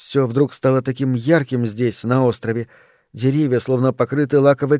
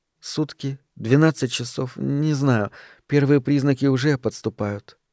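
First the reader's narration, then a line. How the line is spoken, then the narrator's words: Weak voice. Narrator (Russian): ответила она слабым голосом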